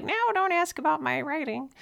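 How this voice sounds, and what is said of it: Cartoon character voice. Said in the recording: “I don't know why my soul talks like a cartoon character”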